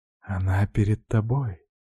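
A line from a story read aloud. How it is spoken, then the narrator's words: Soft whisper. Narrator (Russian): тихо прошептала Арина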